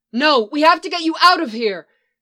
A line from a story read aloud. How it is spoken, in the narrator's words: she cried